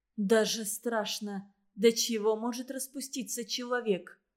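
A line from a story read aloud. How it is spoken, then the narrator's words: Even flat voice. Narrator (Russian): произнесла Лариса тем же ровным голосом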